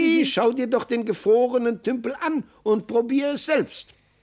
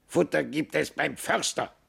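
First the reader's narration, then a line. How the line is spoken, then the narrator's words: Raven's croak. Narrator (German): krächzte der Rabe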